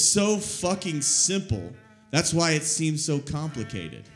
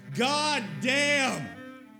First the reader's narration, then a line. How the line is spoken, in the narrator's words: Be so thankful to be so frustrated, you smile and yell